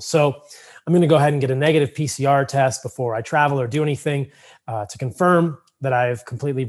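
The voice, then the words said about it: Slightly hoarse, froggy voice. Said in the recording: “I have a little bit of a frog in my throat. I think that my voice sounds a little bit different”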